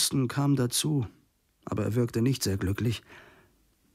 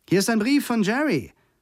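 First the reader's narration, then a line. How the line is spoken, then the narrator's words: Loud call. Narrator (German): rief sie mit lauter Stimme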